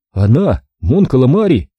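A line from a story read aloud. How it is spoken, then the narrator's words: Desperate shout. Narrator (Russian): с отчаянием в голосе крикнул Оби-Ван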